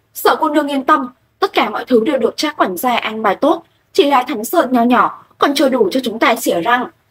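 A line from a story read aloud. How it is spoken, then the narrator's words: Loud shout. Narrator (Vietnamese): Lệ Kinh Thiên lại quát to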